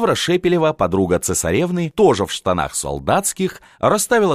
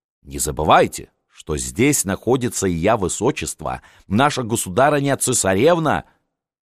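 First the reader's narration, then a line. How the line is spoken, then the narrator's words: Snorting. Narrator (Russian): Елизавета фыркнула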